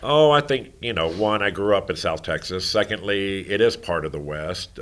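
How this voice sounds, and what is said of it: Deep Southern Texas accent. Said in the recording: “I can kind of tell with the accent. It's very deep.”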